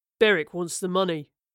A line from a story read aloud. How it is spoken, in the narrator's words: Moreland grunted